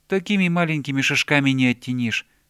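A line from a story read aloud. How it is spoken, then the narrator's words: Plain, bear cub. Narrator (Russian): сказал медвежонок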